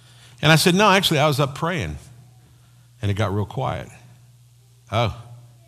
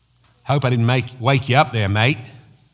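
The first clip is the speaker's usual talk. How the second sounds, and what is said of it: Bad put-on Australian accent. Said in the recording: “That's my bad Australian accent.”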